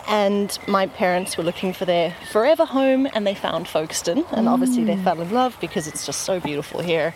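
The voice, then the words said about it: South African accent. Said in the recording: “We're originally South African. You can hear from the twang.”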